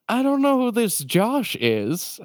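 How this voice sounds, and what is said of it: Old-timey prospector character voice. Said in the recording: “sometimes ... turns into an old-timey character called Prospector Joe”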